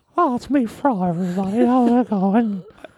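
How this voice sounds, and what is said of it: Frail old man voice. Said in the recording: “I sound like a frail old man. ... it's strung out Mickey Mouse.”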